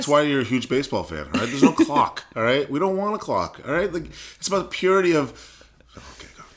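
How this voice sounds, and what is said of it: Strong regional accent. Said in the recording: “How much did my accent come out when I just said clock? ... It was a lot.”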